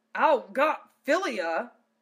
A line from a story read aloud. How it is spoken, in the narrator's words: Zell sputtered in annoyance